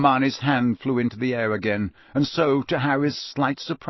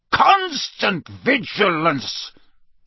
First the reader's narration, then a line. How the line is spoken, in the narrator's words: he barked